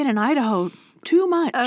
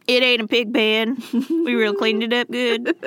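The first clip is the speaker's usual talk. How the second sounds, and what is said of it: Mock Southern accent. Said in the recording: “Everyone has a southern accent. I'm allowed to make fun of them.”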